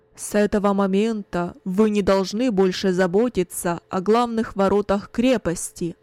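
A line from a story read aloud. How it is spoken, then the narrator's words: Loud commanding announcement. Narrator (Russian): Кунерих громко, властным голосом объявил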